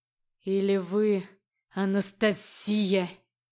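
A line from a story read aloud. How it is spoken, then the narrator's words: Indignant hiss. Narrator (Russian): Возмущенно зашипел он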